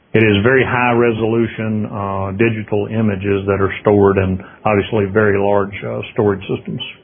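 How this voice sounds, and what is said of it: Slight Southern US accent. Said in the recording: “You might detect a slight southern accent with”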